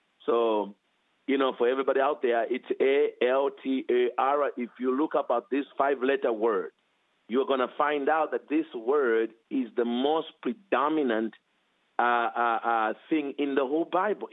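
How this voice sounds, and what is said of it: African-accented English. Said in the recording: “because of my accent ... when you come from Africa, sometimes you have to spell some words”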